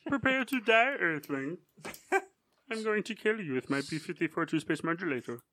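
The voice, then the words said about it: Imitates a cartoon Martian's voice. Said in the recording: “Only guy I know who does that impression. ... Are you doing the Martian from a Space Jam? ... From Looney Tunes.”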